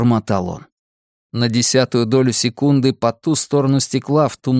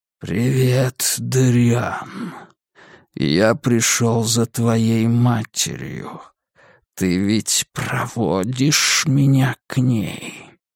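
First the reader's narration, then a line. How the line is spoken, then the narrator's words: Hissing shadow. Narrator (Russian): прошипела тень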